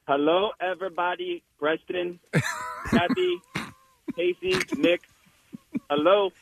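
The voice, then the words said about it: Imitates another person's voice. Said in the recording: “That's a great Jose impression.”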